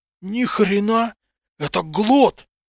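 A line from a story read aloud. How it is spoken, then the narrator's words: Stammered, forced out. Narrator (Russian): заикаясь, выдавил Гриня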